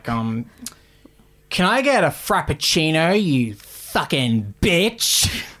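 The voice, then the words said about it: Imitates another person's voice. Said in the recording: “do an impression”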